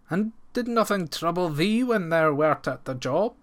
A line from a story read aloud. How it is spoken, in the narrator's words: answered the farmer faintly